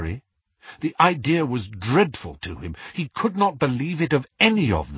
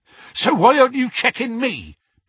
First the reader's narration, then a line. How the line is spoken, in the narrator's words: panted Hagrid, still struggling to fit through the door